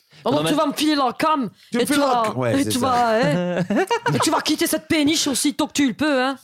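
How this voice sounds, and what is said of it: Put-on Belgian French accent. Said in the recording (French): “C'est l'accent belge. ... C'est devenu belge, l'accent”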